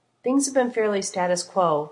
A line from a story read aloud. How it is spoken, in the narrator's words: Reed replied, his voice level